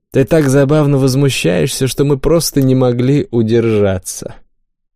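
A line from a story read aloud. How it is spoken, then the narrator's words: Amused, soothing. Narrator (Russian): Отсмеявшись, Ринна фыркнув, успокоила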